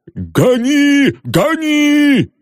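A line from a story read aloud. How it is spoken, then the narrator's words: Excited shout. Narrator (Russian): закричал Сыровяткин, охваченный азартом погони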